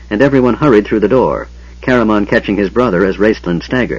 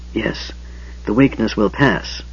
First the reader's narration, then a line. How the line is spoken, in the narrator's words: Raistlin whispered